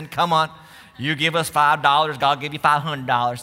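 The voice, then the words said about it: Mock Texan preacher accent. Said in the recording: “usually with a Texan accent.”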